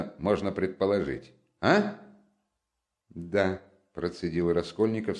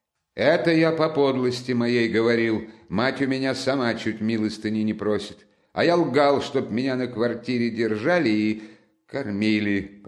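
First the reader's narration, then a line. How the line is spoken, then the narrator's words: Loud and clear. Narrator (Russian): проговорил громко и отчетливо Раскольников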